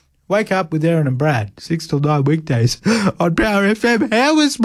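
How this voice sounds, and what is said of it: Usual voice. Nothing is said of it.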